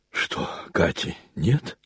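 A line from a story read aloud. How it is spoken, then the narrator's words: Wheezing rasp. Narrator (Russian): прохрипел он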